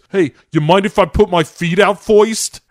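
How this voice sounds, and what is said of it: Old-fashioned Brooklyn-style accent. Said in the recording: “in a real, you know, Washington, D.C. question mark accent ... Are we in Brooklyn circa the 1930s all of a sudden?”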